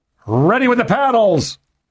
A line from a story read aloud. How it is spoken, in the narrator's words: he shouted